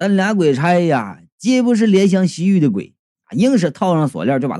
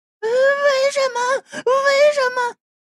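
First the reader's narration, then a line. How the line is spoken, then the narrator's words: Trembling, desperate repeated cries. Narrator (Chinese): 小红啊，哆哆嗦嗦的……那女鬼就挣扎起，连声就喊道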